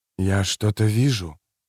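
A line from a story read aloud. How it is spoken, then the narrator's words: Whisper. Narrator (Russian): прошептал Кензер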